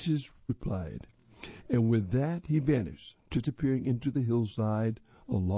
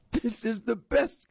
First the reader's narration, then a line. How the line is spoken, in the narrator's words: King Midas yelled